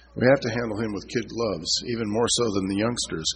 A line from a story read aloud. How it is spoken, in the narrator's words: Kendall sighed